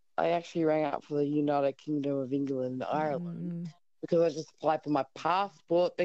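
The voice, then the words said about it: Australian accent. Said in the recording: “obviously, Aussie accent.”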